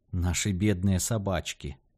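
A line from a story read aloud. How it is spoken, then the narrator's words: Sighed. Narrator (Russian): вздохнула Джорджет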